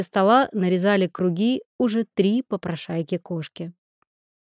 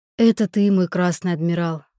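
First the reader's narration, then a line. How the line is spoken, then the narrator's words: Sighing, singer. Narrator (Russian): вздохнул певец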